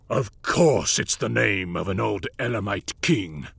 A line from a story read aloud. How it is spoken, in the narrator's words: snarled